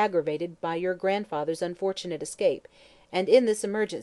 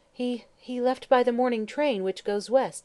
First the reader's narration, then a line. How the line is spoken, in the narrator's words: stammered Miss Stern, anxious to placate the officer, and fearful of the girl's stubborn resistance